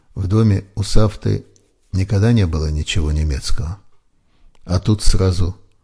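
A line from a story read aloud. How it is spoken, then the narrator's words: Quiet. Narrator (Russian): так же тихо продолжила сестра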